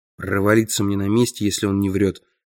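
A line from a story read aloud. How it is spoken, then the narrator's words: Muttering. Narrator (Russian): пробормотал я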